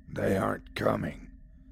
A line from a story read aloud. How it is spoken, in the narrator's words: growled the voice